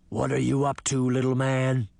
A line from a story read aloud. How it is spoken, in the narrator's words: the beast growled